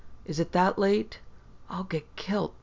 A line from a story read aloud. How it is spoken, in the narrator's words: Susie Callister whispered